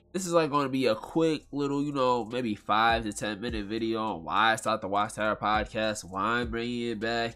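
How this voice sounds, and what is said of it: Nasal, congested voice. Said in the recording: “Sorry if I sound nasally right now. It's just like, you know, my allergies is killing me. I'm out here blowing my nose 24/7”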